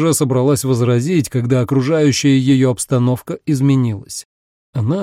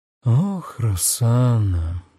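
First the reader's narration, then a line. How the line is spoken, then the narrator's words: Thoughtful drawl. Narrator (Russian): задумчиво протянул Энцо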